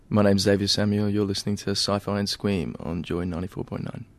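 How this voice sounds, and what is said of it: Polished radio announcer voice. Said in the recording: “Did I have a radio voice then when I said those things? ... Wow, that's good.”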